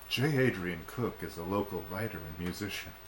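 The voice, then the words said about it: Formal telephone-style voice. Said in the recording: “That's my phone voice.”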